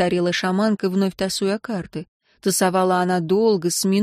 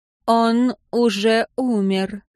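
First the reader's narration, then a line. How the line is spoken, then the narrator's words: Slow speech. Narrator (Russian): наконец медленно сказала Ефыша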